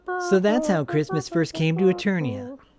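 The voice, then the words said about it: Cartoon prince character voice. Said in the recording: “Do it in your best Prince Adam voice. ... That's my Prince Adam voice going into Orko as well.”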